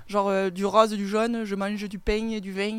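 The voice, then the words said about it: Put-on southwestern French accent. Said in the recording (French): “fais l'accent du sud... sud-ouest”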